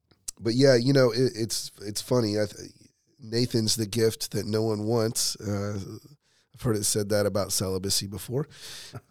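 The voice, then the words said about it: Hoarse, strained voice. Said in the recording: “I preached myself out of a voice on Sunday. I had a head cold. ... pardon my voice.”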